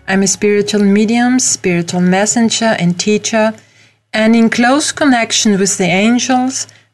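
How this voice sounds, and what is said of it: Austrian-accented English. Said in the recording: “I'm from Europe, from Austria, as you can hear from my accent.”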